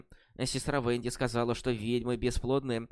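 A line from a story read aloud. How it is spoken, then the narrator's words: Mutter. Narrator (Russian): пробормотала Анна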